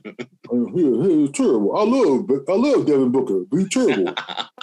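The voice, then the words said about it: Charles Barkley impression. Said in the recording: “my Barkley impression”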